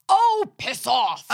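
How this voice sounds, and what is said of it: Put-on English accent. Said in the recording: “In her English accent.”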